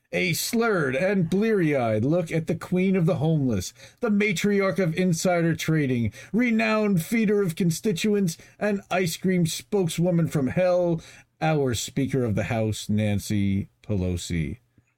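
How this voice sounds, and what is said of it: Announcer voice. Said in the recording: “I did my own announcer voice.”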